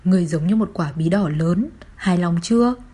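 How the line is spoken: Hesitant, then laughing. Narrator (Vietnamese): Tôi do dự một lúc, bật cười nói

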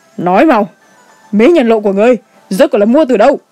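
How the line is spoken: Shrill shout. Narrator (Vietnamese): Cung chủ quát lên chói tai

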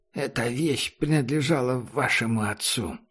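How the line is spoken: Low voice. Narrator (Russian): Сказал вполголоса

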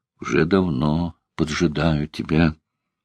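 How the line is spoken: Toothless mumbling. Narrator (Russian): Та проговорила, шамкая беззубым ртом

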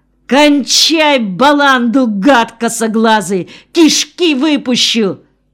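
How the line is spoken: Terrified yelling. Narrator (Russian): Бебу охватил дикий страх, и потому он заорал

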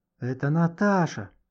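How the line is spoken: Whisper. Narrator (Russian): прошептал Гошка

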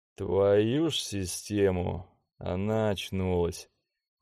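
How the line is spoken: Breathless exhale. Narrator (Russian): выдохнул

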